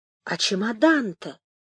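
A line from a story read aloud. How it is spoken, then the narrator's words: Barely audible question. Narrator (Russian): еле слышно спросил Темляков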